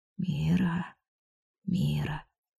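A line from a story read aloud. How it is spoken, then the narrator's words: Whisper. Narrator (Russian): шептал он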